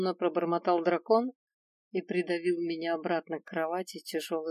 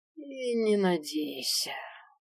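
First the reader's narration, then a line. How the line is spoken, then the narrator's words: Drawling. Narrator (Russian): протянул Свен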